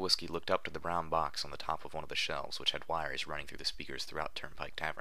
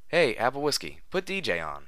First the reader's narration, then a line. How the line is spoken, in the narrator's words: One of the bucks from down the counter called out